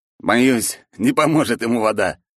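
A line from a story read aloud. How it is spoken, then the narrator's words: Laughing while speaking. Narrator (Russian): сквозь смех сказал Федя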